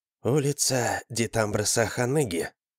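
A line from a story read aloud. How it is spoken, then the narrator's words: Just above whisper. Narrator (Russian): произнесла дама чуть громче шепота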